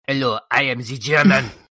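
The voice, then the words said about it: Mock, not-real German accent. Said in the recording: “It's not like a real German accent.”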